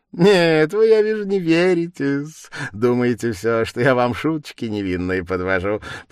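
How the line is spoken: Merry, giggling. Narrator (Russian): подхватил Порфирий, все более и более веселее и беспрерывно хихикая от удовольствия

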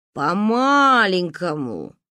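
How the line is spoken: Drawling. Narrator (Russian): протянул папа

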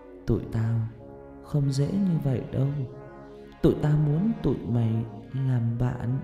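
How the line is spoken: Close whisper in ear. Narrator (Vietnamese): má phải và miệng nó sát vào bên tai tôi thì thầm

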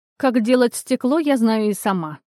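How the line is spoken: Goddess snorting. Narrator (Russian): фыркнула богиня

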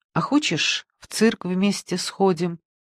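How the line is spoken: Surprised, to herself. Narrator (Russian): спросила она сама себе, удивляясь

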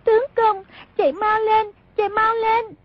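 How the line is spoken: Panicked crying cry. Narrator (Vietnamese): Song Nhi cuống quá bật khóc, kêu lên

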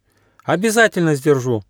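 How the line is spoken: Joyful promise. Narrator (Russian): радостно пообещал Аука

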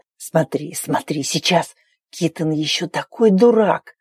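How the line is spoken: Excited whisper in ear. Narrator (Russian): конунг зашептал возбужденно на ухо

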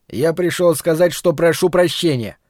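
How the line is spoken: Shouted. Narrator (Russian): крикнул Ларри

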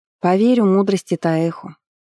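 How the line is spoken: Sighing. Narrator (Russian): вздохнула царевна

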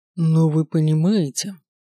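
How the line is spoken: Tired. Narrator (Russian): устало произнес

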